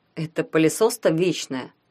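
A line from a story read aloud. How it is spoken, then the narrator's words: Snorting. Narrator (Russian): хмыкнул Ванька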